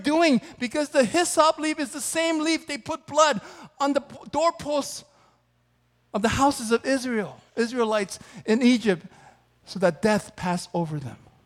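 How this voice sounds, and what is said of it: Yelling, fired-up preaching. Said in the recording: “I get fired up... I'm yelling so much this week, but I'm getting fired up”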